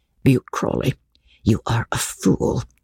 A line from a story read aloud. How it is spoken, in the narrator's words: said his wife scornfully